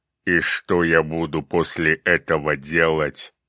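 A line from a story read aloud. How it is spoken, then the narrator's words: Angry growl. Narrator (Russian): сердито прорычал демон огня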